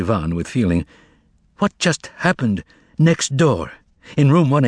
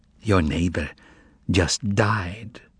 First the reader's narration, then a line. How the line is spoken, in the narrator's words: whispered Praskovya Fyodorovna